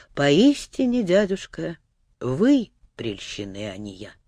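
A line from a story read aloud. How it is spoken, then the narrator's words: Thoughtful reply. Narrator (Russian): задумчиво ответила она наконец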